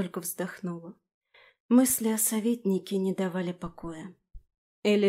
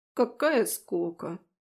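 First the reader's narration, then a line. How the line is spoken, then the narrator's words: Muttering into ear. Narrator (Russian): пробурчал Фрей мне на ухо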